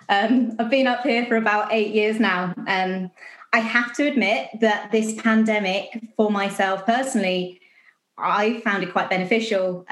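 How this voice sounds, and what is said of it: Scottish accent. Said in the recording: “as you can tell by my beautiful Scottish accent.”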